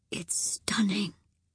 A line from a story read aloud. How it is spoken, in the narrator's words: whispered